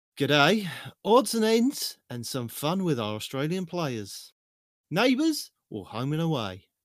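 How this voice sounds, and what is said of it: Attempted Australian accent. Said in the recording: “I don't know if I can pull off an Australian accent”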